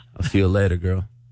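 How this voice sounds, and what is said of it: Put-on sexy voice. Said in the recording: “Send her off with sexy voice.”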